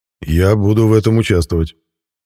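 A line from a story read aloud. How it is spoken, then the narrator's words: Gloomy promise from behind. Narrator (Russian): мрачно пообещал из-за моего плеча Мирон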